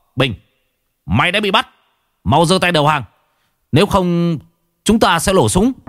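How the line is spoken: Loud shout. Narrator (Vietnamese): có tiếng quát to

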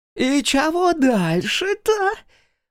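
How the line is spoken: Shrill inhuman voice behind wall. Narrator (Russian): спросил визгливый голосок из-за стены, уже нисколько не похожий на человеческий

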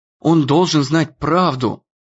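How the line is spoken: Whispering. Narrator (Russian): зашептала она Дэну

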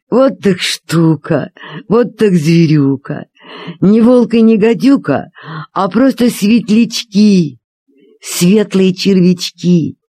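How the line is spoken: Laughing. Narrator (Russian): засмеялся и сказал

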